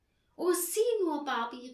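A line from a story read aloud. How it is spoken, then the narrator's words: Joyful calling out. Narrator (German): rief, und sein Herz klopfte vor Freude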